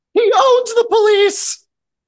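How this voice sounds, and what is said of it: Bad imitation of another person's voice. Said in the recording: “bad Nicholson impression”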